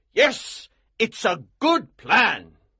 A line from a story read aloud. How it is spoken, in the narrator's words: he cried